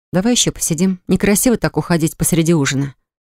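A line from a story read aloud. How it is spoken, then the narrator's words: Calm. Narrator (Russian): спокойно ответила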